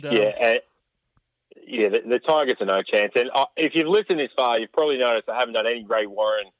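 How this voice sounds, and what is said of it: Rough, strained sore-throat voice. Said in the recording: “My throat is dead set rattled. It is killing me.”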